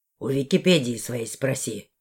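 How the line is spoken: Grumbled mutter. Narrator (Russian): буркнул он

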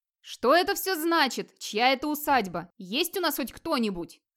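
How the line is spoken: Shouting. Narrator (Russian): кричал Эрнельф

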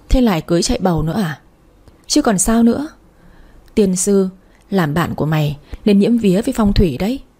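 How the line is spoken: Worried, sighing. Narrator (Vietnamese): Kỳ Trang vẻ mặt đăm chiêu lo lắng, thở dài nói

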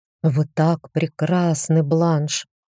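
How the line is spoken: Muffled whisper. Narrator (Russian): шепнул Демьен, зарывшись лицом в мои волосы

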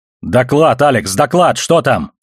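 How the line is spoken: Urgent shout. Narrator (Russian): крикнул Холден

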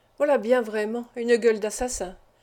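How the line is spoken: Murmuring. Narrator (French): murmura

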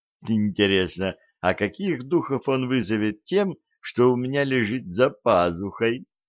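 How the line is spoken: Giggling. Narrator (Russian): хихикнул Арчибальд

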